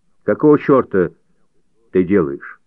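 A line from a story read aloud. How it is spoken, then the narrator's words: Stern question. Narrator (Russian): Джордж строго спросил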